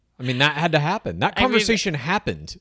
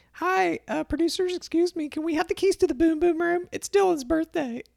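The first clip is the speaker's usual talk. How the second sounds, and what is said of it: Man doing a female voice impression. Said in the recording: “She sounded probably just like that. That is how Hannah talks. ... That's my best just kind of female voice impersonation. Like, I can't really do a good one.”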